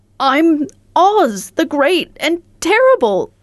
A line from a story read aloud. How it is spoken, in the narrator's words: said the little man in a trembling voice